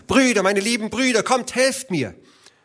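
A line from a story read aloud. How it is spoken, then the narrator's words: Scream, female. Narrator (German): schrie sie noch einmal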